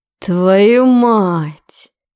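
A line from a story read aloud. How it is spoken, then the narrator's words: Stunned drawl. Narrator (Russian): ошарашенно протянул он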